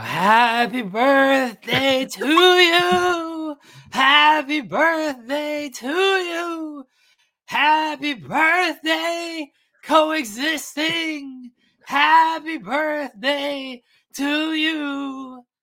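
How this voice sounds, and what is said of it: Raspy rock-singer singing voice. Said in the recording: “Sing it Creed style then. ... Higher. ... My Creed raspy voice there.”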